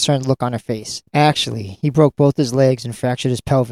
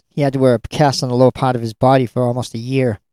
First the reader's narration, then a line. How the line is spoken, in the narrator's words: Steve sighed